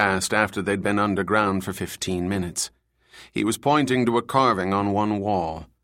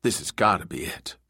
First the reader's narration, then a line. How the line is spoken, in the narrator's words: Murph replied